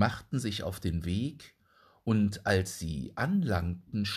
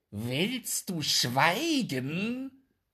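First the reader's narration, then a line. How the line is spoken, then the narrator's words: Called out. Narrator (German): rief die Katze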